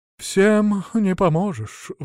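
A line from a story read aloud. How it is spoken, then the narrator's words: Sigh. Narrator (Russian): вздохнул Василек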